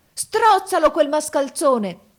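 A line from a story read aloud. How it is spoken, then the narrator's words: Wizard yelling. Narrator (Italian): urlò il mago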